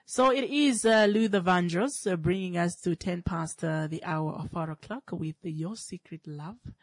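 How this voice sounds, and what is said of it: Congested, blocked-nose voice. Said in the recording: “as you can hear from my voice, I'm battling sinus... My sinus is acting up, so I have a blocked nose”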